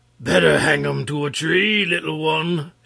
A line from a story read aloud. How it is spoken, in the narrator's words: shouted Wul Takeham in his big voice